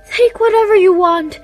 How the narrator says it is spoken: pleaded the queen

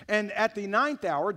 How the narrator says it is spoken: Jesus cried out with a loud voice

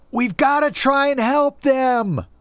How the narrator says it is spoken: shouted as loud as I could

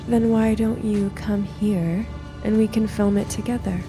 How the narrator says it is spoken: I said in the most seductive voice I could muster

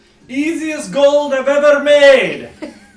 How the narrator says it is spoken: him yell

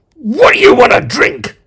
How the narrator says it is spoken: Number Two screamed

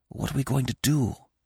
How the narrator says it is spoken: whispered

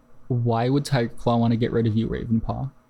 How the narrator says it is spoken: Firepaw asked gently

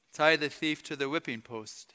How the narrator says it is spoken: ordered quietly

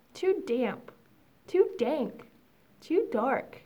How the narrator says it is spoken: Mouse squeaks

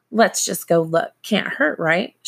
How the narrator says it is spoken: she asked

